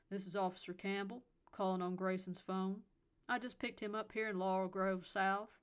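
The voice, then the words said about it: Elderly man, deep Southern accent. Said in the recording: “an elderly male voice replied with a deep southern accent”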